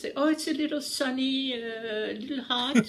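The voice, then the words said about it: Convincing put-on foreign accent. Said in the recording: “wow, that was a really good accent.”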